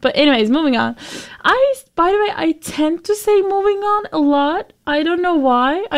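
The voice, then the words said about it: Turkish-accented English. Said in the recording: “I'm from Turkey. That's why I'm foreign. I mean, yeah, you probably understood from my accent that I'm not American.”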